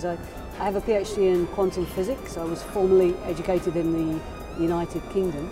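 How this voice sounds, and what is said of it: Foreign, non-American accent. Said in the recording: “As you can probably tell from my accent, I'm not originally from these shores”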